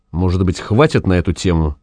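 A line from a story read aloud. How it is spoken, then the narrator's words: Quiet. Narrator (Russian): сказал тихо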